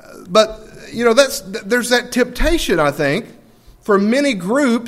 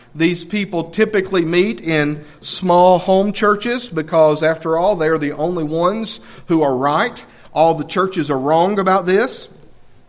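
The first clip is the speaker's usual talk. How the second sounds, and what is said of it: Sarcastic, tongue-in-cheek tone. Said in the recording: “That's tongue-in-cheek, okay? I'm being sarcastic.”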